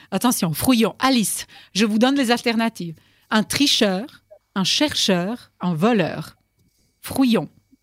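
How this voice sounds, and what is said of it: Speaks with a noticeable accent. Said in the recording (French): “On ne compte pas du tout mon accent ... ne rigolez pas de mon accent”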